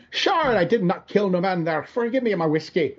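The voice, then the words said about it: Exaggerated stage Irish accent. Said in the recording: “He could have been doing a lot worse. ... doing unfortunate stage Irish”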